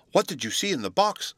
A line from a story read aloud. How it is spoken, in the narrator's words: Sylvie eagerly inquired